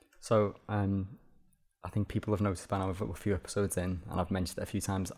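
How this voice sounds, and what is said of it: Strong Liverpool accent. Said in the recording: “I'm from Liverpool ... Can't tell ... your accent's so strong”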